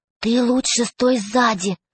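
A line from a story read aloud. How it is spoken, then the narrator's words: Whisper. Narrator (Russian): прошептала Катя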